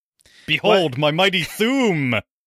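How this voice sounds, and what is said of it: Loud, booming, projected voice. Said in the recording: “My voice is fucking powerful because my diaphragm is not being crushed.”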